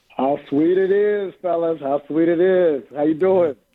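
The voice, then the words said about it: Slightly hoarse voice. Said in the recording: “My voice, you can tell I'm a little hoarse because I've been screaming three games in 5 days.”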